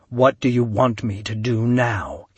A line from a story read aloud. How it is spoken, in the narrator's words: he asked